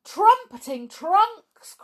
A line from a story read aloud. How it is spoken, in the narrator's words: cried Jumbo